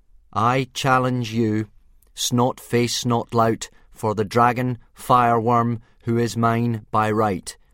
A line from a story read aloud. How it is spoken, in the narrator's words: said Hiccup, trying to hide his reluctance by speaking as loudly and formally as he could